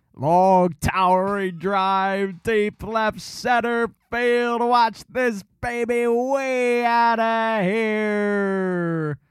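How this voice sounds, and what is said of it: Baseball announcer play-by-play impression. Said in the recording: “I think my Harry Callis isn't bad.”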